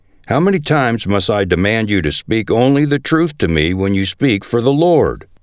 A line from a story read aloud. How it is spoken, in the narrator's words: the king replied sharply